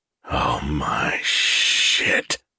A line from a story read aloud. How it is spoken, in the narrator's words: Gus whispered with emotion